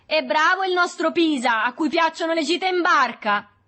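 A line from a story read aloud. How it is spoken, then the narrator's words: Shouting. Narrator (Italian): Berto gridò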